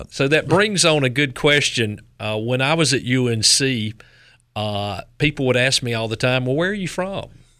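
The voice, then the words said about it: Strong Southern American accent. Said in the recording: “My accent might be a little too much to be doing the news with ... you could do Southern news ... At K-Town accent.”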